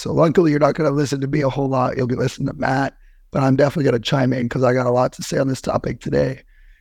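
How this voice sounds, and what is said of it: Scratchy, hoarse voice. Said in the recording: “Forgive my scratchy voice. ... I sound like a chain smoker ... I got a hoarse voice”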